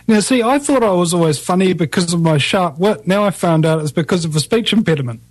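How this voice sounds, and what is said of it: New Zealand accent. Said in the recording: “I had a funny accent ... the Kiwi accent”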